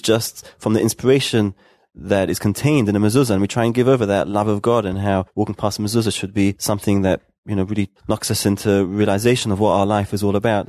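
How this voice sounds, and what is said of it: Speaks with a noticeable accent. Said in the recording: “you can hear from your accent”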